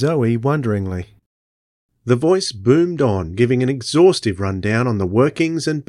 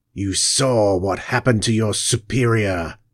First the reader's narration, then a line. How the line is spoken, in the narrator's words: hissed the alien